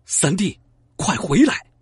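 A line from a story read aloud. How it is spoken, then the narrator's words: Shouting. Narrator (Chinese): 刘备喊道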